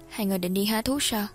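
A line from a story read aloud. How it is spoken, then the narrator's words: Gentle reply. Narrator (Vietnamese): dịu dàng trả lời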